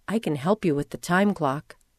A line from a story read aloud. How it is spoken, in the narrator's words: she whispered to me